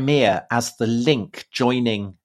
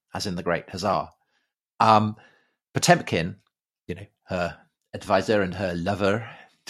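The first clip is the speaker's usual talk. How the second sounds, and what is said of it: Inspector Clouseau-style French accent. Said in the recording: “Did you have to say that in that kind of Clouseau accent?”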